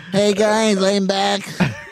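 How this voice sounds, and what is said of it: Attempted robot voice, sounds like Oompa Loompa. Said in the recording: “He's trying to do the robot voice. It just sounds like he's a fucking Oompa Loompa.”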